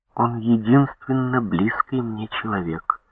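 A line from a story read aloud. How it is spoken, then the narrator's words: Calm, matter-of-fact. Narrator (Russian): сказала она спокойно, просто, как о вещи, само собой разумеющейся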